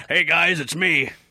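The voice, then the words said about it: Old wizard voice, Brooklyn accent. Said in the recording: “my Dumbledore impression ... Brooklyn Dumbledore”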